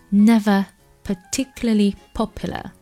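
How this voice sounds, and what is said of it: London accent, wide-open schwa. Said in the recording (Chinese): “伦敦口音呢不太一样，伦敦口音呢这个 schwa sound 开口比较大”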